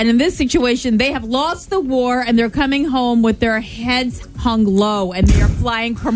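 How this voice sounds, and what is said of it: Usual voice. Nothing is said of it.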